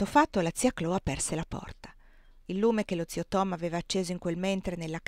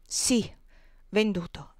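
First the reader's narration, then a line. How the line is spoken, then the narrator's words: Firm voice. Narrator (Italian): ripeté Elisa con voce ferma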